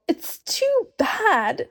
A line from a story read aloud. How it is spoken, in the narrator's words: sobbed Lucy